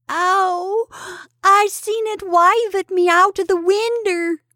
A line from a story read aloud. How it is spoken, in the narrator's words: wailed the boy